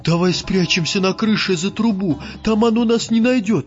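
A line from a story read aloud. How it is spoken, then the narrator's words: Squeaky voice. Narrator (Russian): пропищал Вахмурка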